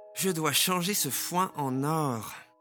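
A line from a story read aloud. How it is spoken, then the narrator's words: Sighed. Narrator (French): soupira Sophie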